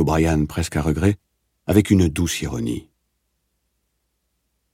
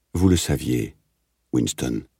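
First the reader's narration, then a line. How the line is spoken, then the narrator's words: Plain. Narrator (French): dit O'Brien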